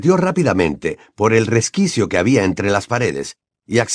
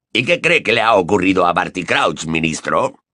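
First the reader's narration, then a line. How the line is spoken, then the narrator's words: Gruff question. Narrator (Spanish): preguntó la voz gruñona de Moody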